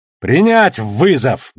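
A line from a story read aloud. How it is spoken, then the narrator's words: Barked shout. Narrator (Russian): гаркнул он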